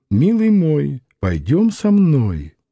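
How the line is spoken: Purring in ear. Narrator (Russian): стала мурлыкать в ухо ему

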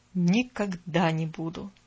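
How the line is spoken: Barely audible male whisper. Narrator (Russian): добавил он так тихо, что девочка едва расслышала

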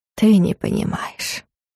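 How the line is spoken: Gentle. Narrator (Russian): мягко сказал Варус

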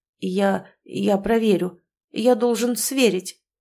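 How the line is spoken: Man mumbling. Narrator (Russian): промямлил мужчина

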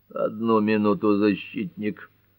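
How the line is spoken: Strained voice, judge interrupting. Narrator (Russian): С давленным голосом прервал его судья Ньюболт

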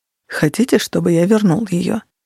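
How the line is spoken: Quiet, hushed question. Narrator (Russian): спросил Горгон тихим голосом, чтобы Кира не услышала

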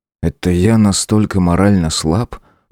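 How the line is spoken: Muttered under breath. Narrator (Russian): буркнул себе под нос

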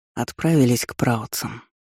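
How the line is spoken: Quiet, secretive answer. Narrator (Russian): ответил мне тихо Аарон, чтобы Кайден не услышал

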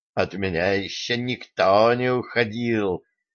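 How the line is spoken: Indistinct mumble. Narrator (Russian): невнятно пробормотал

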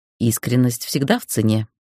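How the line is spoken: Calm reply. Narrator (Russian): ответила спокойно

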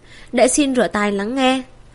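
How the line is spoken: Smiling. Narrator (Vietnamese): Thiệu Bình Ba mỉm cười

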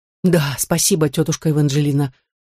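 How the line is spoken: Breathed out. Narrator (Russian): выдохнул Мерлин

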